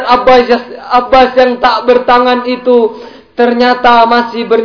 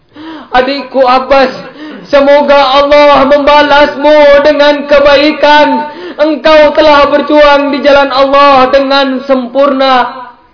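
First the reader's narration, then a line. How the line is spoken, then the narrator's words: Sobbing speech. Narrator (Indonesian): Di tengah isak tangisnya, imam juga berucap kepada Abbas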